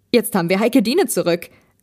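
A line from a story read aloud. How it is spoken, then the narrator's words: Called out. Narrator (German): rief Benjamin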